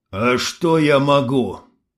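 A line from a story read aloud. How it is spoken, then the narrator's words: Muffled, strained. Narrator (Russian): глухо выдавливает Егор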